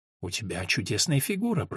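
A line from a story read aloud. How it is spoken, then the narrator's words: Woman whispering. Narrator (Russian): прошептала женщина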